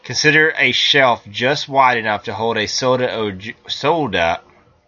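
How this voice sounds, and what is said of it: Fargo-style Upper Midwest accent. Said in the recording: “do I have an accent all of a sudden? ... Down from Fargo there.”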